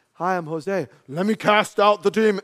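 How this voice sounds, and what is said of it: Mock authoritative voice. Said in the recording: “put on my authority voice”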